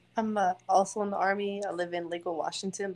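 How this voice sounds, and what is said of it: Thick New York accent. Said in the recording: “she's got a real thick New York accent”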